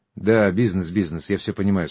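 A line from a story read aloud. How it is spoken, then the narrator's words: Tired. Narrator (Russian): сказал я устало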